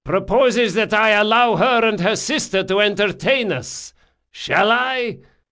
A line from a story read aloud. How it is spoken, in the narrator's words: he shouted